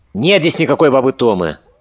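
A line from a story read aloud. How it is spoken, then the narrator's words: Sharp irritated young woman. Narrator (Russian): Резко ответила другая, молодая, раздраженная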